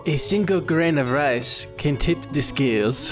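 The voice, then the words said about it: Terrible put-on accent. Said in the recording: “That was a terrible accent.”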